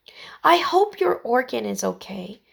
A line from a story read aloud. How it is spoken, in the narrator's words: said Heidi softly